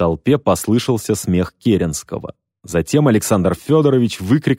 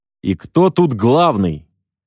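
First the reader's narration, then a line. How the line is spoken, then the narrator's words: Shout through megaphone. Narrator (Russian): полковник поднял ко рту рупор и крикнул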